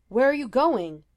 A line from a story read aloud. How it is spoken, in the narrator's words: Bucky yelled after her